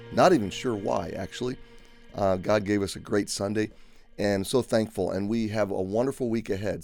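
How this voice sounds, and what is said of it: Slightly raspy voice. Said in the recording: “my voice is still recovering from Sunday ... I've got a little bit of a raspy throat”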